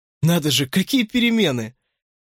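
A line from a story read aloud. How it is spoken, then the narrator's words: Exclaimed. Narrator (Russian): воскликнул Десмонд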